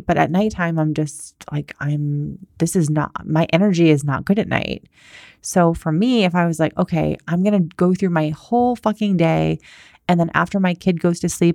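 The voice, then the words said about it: Quiet, soft, slow low-energy voice. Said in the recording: “my tone of voice is very quiet. It's like soft. It's like kind of slow ... my tone of voice is much slower and softer right now”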